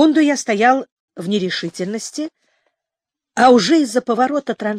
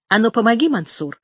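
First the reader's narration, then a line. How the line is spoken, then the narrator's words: Plain. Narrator (Russian): сказала Оля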